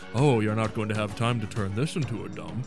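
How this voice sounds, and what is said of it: Hannibal impression, sounds like 007. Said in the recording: “Is that a good Hannibal impression? ... You sounded like one of those 007s”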